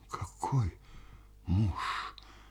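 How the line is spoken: Whisper. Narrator (Russian): прошептала Паша

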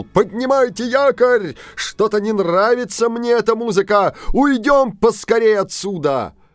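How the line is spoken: Loud shout. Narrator (Russian): старшина громко крикнул

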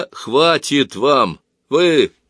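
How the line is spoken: Deep bass voice. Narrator (Russian): пробасил Грицина

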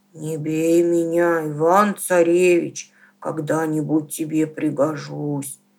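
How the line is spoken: Bear speaking in human voice. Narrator (Russian): медведь говорит ему человеческим голосом

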